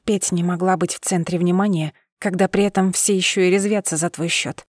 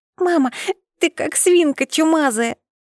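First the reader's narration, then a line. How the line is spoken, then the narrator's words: Child's laughing grunt. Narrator (Russian): прохрюкала, смеясь, дочь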